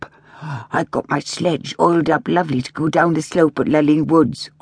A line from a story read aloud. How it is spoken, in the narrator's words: grumbled a third